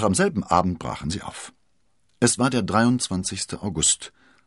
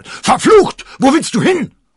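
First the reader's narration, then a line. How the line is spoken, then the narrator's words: Roared. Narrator (German): brüllte Athos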